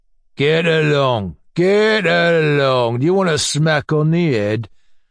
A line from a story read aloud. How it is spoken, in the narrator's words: boomed out lazily, apparently only as a matter of form